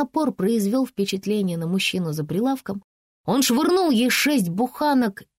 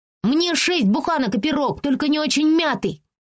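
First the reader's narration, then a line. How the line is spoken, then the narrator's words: Shouted. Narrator (Russian): крикнула она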